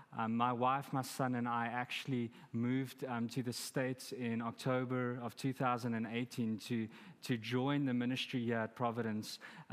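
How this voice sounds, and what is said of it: Noticeable foreign accent in English. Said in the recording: “accent that you can probably hear ... We've had a lot of fun with this accent.”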